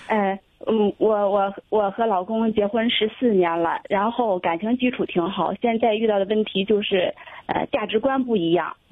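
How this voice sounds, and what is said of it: Hebei Cangzhou regional accent. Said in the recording (Chinese): “河北的听众啊 ... 沧州的 ... 听一听口音”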